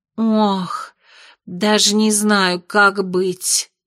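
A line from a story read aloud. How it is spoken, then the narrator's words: Sighing. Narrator (Russian): вздохнула Озерная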